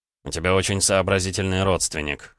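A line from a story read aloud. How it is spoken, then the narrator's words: Snort. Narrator (Russian): хмыкнул он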